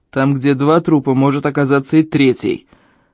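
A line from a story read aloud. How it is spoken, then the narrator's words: Barking. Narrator (Russian): рявкнул на него Эльм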